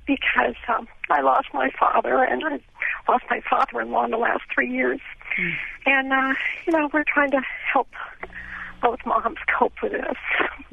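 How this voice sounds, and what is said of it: Choked-up, emotional voice. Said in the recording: “I'm a little choked up ... Very emotional.”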